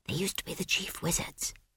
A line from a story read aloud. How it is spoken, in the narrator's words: whispered Esk